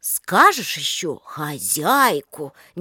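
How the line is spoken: Doubtful drawl. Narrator (Russian): недоверчиво протянула Степанида

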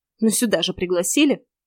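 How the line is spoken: Angry snort. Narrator (Russian): зло фыркнула

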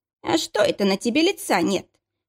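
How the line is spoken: Mocking tone. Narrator (Russian): проговорила она насмешливо

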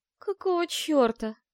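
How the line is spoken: Hoarse. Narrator (Russian): прохрипела я

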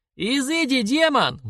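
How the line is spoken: Sudden shriek. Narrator (Russian): вдруг завизжал Михал

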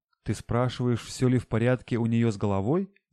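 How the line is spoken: Laughing father. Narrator (Russian): Засмеялся папа

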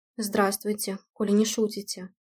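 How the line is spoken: Mutter. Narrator (Russian): пробормотал Дима

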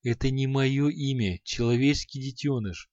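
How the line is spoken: Gentle, smiling demon. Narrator (Russian): Ласково улыбнулся демон

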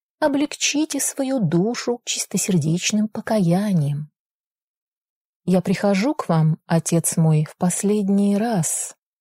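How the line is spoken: Hesitant, young man. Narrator (Russian): несколько неуверенно начал молодой граф

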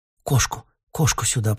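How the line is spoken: Muttered reply. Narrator (Russian): пробормотала в ответ Ксения

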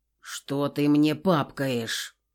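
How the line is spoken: Irritated. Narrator (Russian): раздраженно продолжил он

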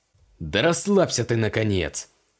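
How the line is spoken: Barked. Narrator (Russian): рявкнул капеллан

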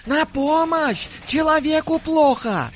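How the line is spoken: Shout for help. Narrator (Russian): закричал отравитель

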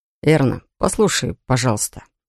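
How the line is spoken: Soft, gentle. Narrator (Russian): мягко начал парень

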